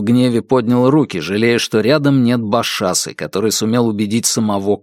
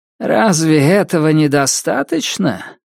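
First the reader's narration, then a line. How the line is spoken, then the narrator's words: Weary, resigned. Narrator (Russian): Демон Ранелди говорила устало, словно хотела только одного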